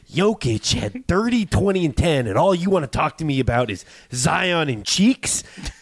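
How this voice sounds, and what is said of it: Imitates another person's voice. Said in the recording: “You have a little Jack Nicholson in your Michael Malone impression.”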